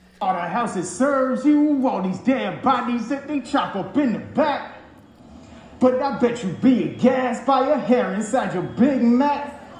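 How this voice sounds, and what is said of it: Fake hood rap accent. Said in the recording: “He has a fake accent ... the fake what they think sounds like a hood accent”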